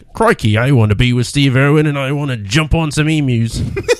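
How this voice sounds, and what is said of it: Crocodile Hunter Steve Irwin impression. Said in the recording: “That's the best impression you did today.”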